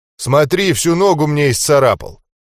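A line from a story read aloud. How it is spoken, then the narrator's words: Giant's aggrieved complaint. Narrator (Russian): жаловался великан Жофу обиженным голосом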